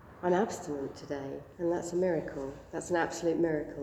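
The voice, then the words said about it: Voice of someone with a cold. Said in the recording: “I've got a cold, so I'm kind of half here.”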